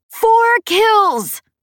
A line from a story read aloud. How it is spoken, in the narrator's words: shouted